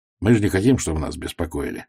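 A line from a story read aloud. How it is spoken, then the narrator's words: Gloomy. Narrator (Russian): мрачно сказал он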